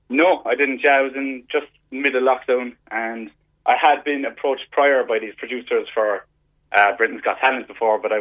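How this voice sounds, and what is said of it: Mumbly accent. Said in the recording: “my kind of mumbly accent”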